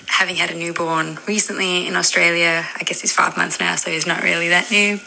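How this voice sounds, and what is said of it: South African accent. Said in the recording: “I'm South African. So don't get your hopes up for a cool Aussie accent. But it's a good accent.”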